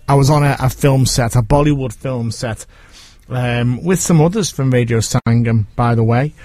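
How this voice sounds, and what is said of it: Liverpool accent. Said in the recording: “my Liverpool accent”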